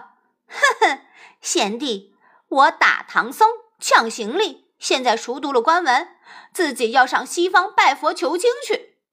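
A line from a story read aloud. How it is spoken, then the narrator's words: Cold laugh. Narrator (Chinese): 悟空呵呵冷笑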